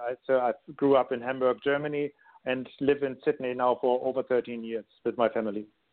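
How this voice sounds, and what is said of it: German accent. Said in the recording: “my accent is so foreign, I'm actually born in Germany”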